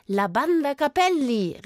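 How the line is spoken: Man calling out. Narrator (German): rief einer der Kerle

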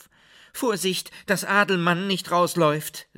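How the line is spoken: Calling out. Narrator (German): rief

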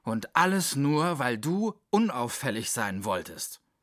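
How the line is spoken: Growling. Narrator (German): knurrte Mü

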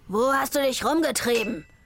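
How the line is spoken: Shouting between blows. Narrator (German): schrie zwischen zwei Schlägen

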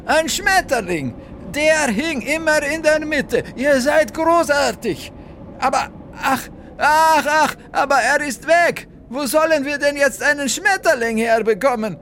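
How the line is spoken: Screamed. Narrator (German): schrie jetzt Valentina

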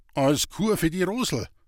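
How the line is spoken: Plain. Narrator (German): sagte Herr Böhmlein

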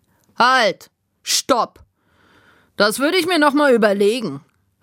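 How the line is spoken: Called out. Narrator (German): rief Ede

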